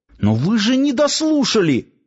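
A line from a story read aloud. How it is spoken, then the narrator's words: Hasty, fearful exclamation. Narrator (Russian): поспешно воскликнул Нанос, опасаясь, как бы начальник гарнизона не поторопился его прихлопнуть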